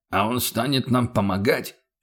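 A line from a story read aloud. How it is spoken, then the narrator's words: Dismissive snort. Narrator (Russian): пренебрежительно хмыкнул Феликс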